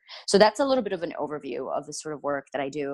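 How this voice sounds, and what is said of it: Excited, faster speech. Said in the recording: “my voice got like, I talked faster”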